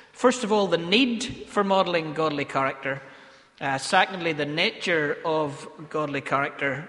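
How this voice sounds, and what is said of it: Northern Irish Ballymena accent. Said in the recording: “nature is one of my favourite Ballymena accent words that I have. People have mimicked that with me for many, many years.”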